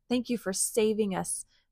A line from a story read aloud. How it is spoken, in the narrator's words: Miss Queen exclaimed